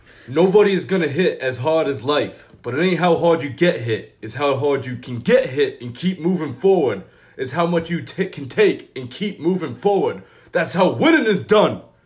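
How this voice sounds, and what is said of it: Sylvester Stallone Rocky Balboa impression. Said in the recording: “I'm going to try my Sylvester Stallone accent here. ... So that's my Rocky Balboa.”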